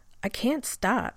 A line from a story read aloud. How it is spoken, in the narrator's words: he said